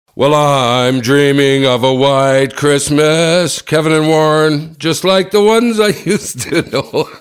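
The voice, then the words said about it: Imitates another person's singing voice. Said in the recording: “my Bing Crosby impression”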